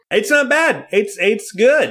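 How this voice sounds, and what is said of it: Yelling loudly. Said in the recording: “I don't know why I'm yelling.”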